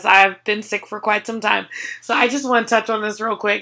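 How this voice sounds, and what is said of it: Sick-sounding voice. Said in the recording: “my voice sounds like this every day, all day, for the last 2 months ... she still sounds sick to me”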